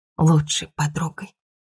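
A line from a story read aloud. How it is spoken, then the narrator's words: Muffled mutter. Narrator (Russian): пробормотала я в джинсы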